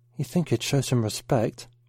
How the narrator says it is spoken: Mark whispered to Pat

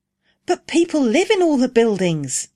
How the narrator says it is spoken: exclaimed Rose

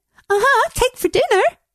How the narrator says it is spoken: She giggles

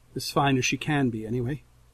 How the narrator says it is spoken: Her tone softens, and she adds

